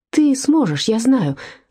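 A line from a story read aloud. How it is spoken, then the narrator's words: Breathy exhale. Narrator (Russian): выдохнула она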